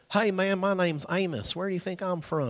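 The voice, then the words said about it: Put-on southern accent. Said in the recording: “He's got a southern accent”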